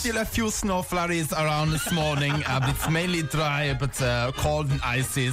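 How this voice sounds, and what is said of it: Austrian accent like Sacha Baron Cohen's Bruno. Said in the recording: “do the weather in Austrian ... Where is your Austrian accent? ... Sacha Baron Cohen's Bruno.”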